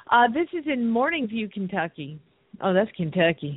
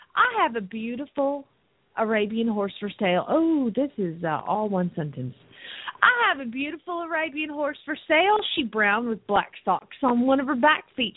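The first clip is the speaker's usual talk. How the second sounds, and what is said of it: Put-on Southern accent. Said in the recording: “We got to use a little bit of a southern accent.”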